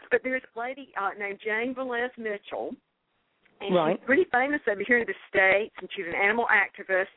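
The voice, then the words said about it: Very strong Southern US accent. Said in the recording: “that girl's got the deepest southern accent I've ever heard”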